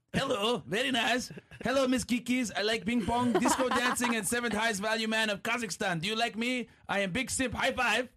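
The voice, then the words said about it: Borat impression. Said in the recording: “I guess I got to do this in a Borat voice”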